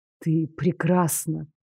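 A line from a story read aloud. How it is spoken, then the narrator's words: Breathy exhale. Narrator (Russian): Выдохнул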